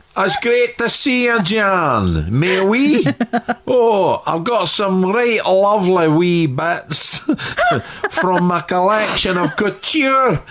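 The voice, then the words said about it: French accent with Scottish tinge. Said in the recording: “the Frenchest person on earth, obviously played by a Scottish actor ... who just does the most fantastic accent”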